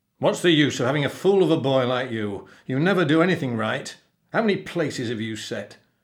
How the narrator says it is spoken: the captain growled

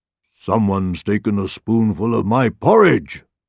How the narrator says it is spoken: roared the father bear

